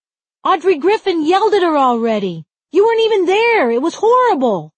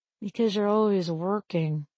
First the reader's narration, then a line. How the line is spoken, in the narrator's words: I mumbled